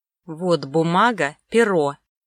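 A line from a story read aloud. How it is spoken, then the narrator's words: Displeased grating through teeth. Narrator (Russian): недовольно проскрежетал сквозь зубы Сомов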